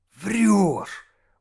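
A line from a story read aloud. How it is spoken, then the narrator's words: Delighted breathless exclamation. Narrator (Russian): восторженно выдохнул Володя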